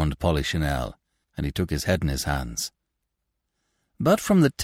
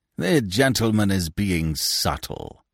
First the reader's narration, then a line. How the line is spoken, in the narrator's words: sneered Binet